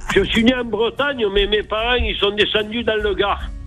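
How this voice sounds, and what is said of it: Sunny southern French Gard accent. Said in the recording (French): “ton accent, là, ensoleillé ... j'ai l'accent du Gard”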